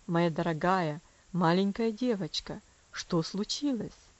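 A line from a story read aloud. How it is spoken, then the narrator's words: Tender, sympathetic. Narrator (Russian): спросил он, ласковым голосом, полным сочувствия и доброты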